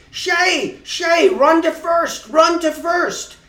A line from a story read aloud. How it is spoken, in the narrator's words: Everyone in the stands, both teams, started yelling